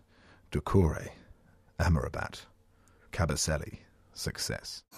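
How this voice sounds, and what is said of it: Deep voice, like a fragrance advert. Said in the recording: “I'm just going to try again now my deep voice ... to see if you think Watford players do sound like fragrances”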